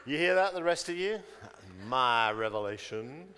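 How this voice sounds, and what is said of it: Put-on American accent. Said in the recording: “Why did I do that with an American accent? ... It just popped out.”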